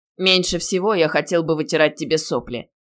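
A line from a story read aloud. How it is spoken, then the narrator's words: Touched, gruff mutter. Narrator (Russian): пробурчал растроганный Илья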